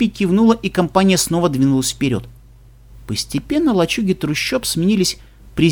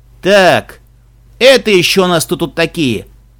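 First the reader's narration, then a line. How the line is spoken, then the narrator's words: Menacing question, gruff big man. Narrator (Russian): грозно спросил угрюмый здоровяк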